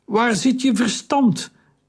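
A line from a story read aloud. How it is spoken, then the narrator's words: Calling out. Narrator (Dutch): riep Taharka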